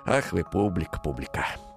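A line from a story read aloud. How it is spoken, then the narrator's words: Tearful smiling whisper. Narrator (Russian): прошептал он, утирая слезы и улыбаясь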